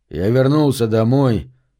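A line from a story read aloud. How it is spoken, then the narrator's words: Calm. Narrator (Russian): спокойно продолжал Прайс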